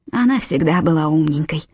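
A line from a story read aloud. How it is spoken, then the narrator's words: Sighing. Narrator (Russian): вздохнула миссис Таунсенд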